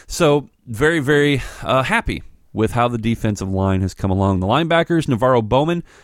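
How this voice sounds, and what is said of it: Usual voice. Nothing is said of it.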